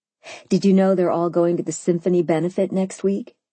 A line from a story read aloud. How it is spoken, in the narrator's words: I said, instantly horrified